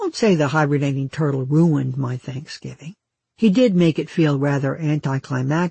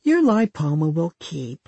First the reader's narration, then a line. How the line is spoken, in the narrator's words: I whined